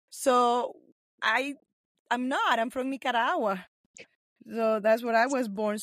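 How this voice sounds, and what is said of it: Speaks with an accent. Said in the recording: “I speak with an accent.”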